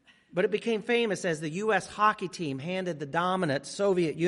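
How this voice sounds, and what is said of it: Usual voice. Nothing is said of it.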